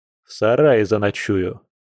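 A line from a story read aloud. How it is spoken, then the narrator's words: Sarcastic reply. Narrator (Russian): столь язвительно ответил волк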